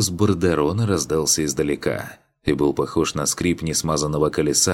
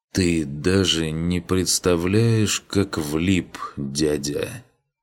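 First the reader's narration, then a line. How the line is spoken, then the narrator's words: Slow, deliberate. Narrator (Russian): Медленно произнес Гунвар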